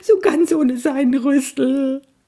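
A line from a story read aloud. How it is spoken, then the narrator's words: Sobbing. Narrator (German): schluchzte er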